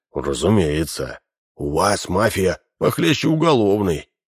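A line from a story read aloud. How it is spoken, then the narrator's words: Sighing. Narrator (Russian): вздохнул Бруно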